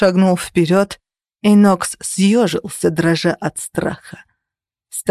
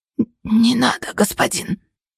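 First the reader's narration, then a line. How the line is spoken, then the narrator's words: Hoarse pleading. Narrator (Russian): хрипло взмолился он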